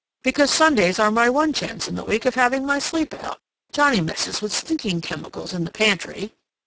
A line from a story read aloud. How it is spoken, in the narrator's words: said Johnny, explaining himself to Catherine